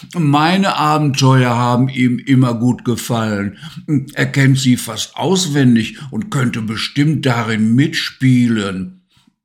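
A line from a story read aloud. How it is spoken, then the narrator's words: Little lion roaring. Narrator (German): brüllte Simba, der kleine Löwe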